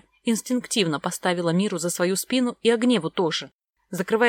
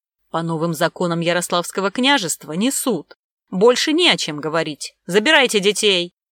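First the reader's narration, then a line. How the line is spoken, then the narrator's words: Sharp shout at subordinates. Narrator (Russian): прикрикнул на своих подчиненных Сомов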